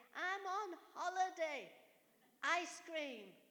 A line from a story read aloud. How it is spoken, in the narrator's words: Angelica shouted at daddy